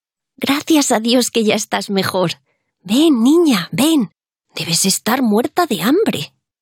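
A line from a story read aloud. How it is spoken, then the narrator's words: Exclamation. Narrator (Spanish): exclamó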